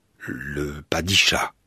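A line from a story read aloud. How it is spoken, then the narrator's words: Terrified stammer. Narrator (French): balbutiai-je, terrorisé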